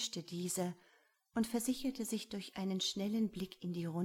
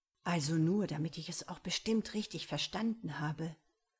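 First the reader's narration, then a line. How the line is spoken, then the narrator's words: Lowered voice. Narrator (German): fuhr Sador mit gesenkter Stimme fort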